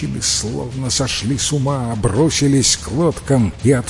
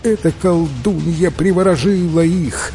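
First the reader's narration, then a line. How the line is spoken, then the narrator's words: Women sobbing. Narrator (Russian): рыдали женщины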